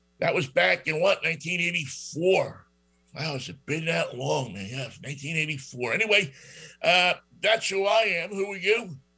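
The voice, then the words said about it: New York accent. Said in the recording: “my New York accent ... from New York”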